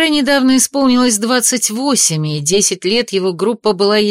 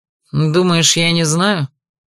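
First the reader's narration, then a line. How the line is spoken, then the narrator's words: Menacing retort. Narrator (Russian): Грозно парировал маршал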